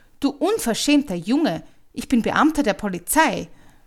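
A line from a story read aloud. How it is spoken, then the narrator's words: Startled loud shout. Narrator (German): Im ersten Schreck rief er laut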